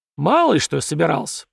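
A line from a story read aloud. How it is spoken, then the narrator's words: Grumbling sovereign. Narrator (Russian): проворчал государь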